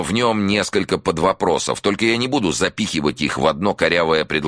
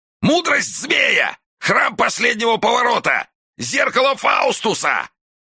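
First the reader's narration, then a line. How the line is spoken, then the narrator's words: Shouting in pain. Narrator (Russian): круглыми от боли глазами, а потом прокричал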